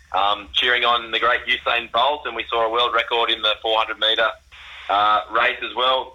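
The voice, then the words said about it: Slightly hoarse, strained voice. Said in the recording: “I've lost my voice a little bit.”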